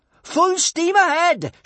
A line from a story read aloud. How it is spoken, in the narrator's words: shouted Kamikaze